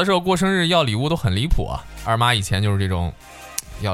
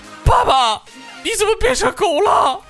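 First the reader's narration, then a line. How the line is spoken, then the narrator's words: Crying, yelling. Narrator (Chinese): 然后就哭了，就在那儿嚷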